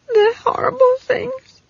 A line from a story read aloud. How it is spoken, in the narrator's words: Esk sobbed